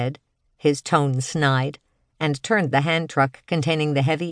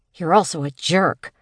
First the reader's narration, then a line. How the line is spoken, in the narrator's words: she said under her breath